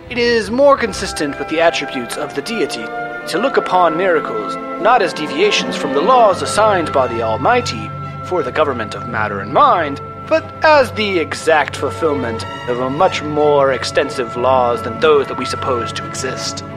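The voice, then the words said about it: Announcer-style radio voice. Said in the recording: “This is your new radio voice ... This is a very good radio voice.”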